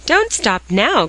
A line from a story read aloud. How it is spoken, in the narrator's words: cried Dick in disgust